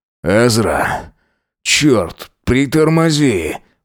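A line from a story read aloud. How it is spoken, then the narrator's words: Groaning. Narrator (Russian): простонал он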